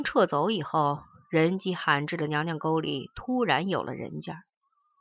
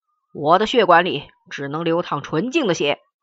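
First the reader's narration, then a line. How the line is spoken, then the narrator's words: Dying man's shout. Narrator (Chinese): 据说他在临死前对着高高的悬壁大喊了一句莫名其妙的话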